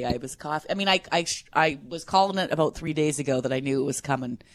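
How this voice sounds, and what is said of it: Stuffed-up congested voice. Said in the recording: “You sound a little stuffed up”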